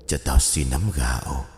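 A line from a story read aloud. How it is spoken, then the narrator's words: Hoarse voice. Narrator (Vietnamese): một giọng khàn khàn cất lên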